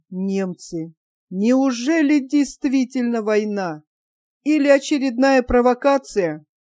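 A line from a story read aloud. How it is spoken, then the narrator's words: Moaning. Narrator (Russian): будто простонал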